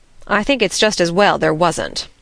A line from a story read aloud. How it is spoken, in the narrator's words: said Marilla dryly